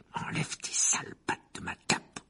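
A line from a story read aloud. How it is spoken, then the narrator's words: Breathless growl. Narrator (French): grogna Harry dans un souffle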